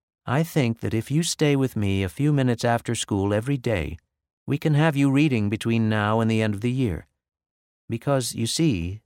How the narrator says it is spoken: she finally said in a kind voice

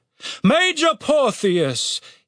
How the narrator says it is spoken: he said solemnly

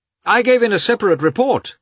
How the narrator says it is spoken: Katavasov called out from the next room

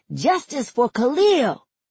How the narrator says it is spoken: Some kids around my age stand on top of a car as they shout

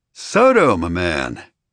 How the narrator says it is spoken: I greeted him, my tone dripping with a faux-friendly sweetness

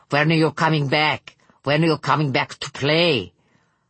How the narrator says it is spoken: said a breathy girl with a Russian accent

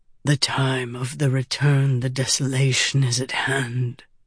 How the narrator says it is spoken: he whispered

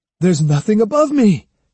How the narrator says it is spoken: he cried

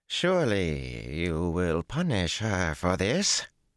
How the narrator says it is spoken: she drawled angrily

